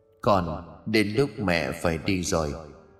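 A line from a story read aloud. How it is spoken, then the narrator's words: Gentle smiling voice. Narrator (Vietnamese): Bà mỉm cười dịu dàng rồi nói với cô gái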